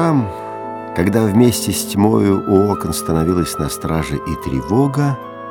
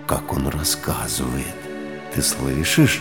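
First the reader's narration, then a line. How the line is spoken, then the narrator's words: Delighted whisper. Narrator (Russian): Иуда с восторгом шептал ей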